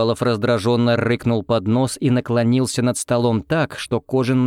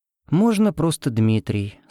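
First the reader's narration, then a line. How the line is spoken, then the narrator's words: Calm reply. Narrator (Russian): спокойно ответил шатен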